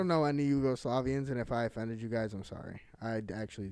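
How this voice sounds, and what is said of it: Usual voice. Nothing is said of it.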